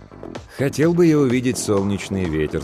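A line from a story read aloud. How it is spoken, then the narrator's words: Plain. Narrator (Russian): сказал Торрес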